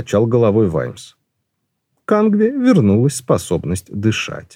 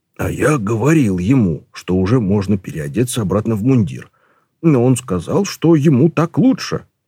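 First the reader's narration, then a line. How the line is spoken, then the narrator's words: Whisper. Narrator (Russian): шепнул Колон Ваймсу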